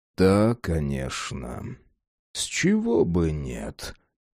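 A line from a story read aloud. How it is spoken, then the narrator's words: Muttered under breath. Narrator (Russian): пробормотал под нос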